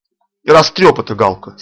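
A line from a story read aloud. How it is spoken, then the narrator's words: Angry. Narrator (Russian): сердито сказал Камелькову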